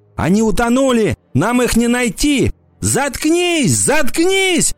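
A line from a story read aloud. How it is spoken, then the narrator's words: Screaming. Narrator (Russian): кричала она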